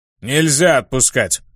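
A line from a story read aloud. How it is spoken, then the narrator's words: Barked. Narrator (Russian): рявкнул Хайра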